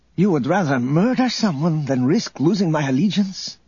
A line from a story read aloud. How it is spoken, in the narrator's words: Isolde exclaimed